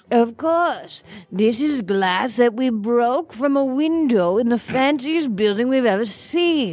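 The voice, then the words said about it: Fancy upper-class accent. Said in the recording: “Can you not use such a fancy accent? ... don't presume to use our rich people accents.”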